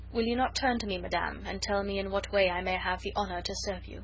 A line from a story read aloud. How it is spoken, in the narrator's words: He restrained himself with a tremendous effort of will, and said coldly, though still very gently